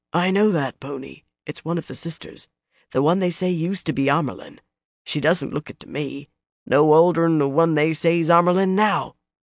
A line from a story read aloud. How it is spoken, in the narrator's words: Then a man muttered, not far enough under his breath